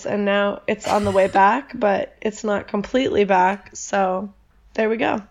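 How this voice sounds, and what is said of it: Hoarse, partly lost voice from illness. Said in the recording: “I have this voice because last week I was kind of out in the cold and got a little sick... I was almost losing my voice, and then I did lose my voice... If she sounds like she's about to die”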